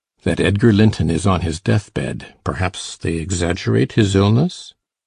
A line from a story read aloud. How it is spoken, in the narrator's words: he added in a lower tone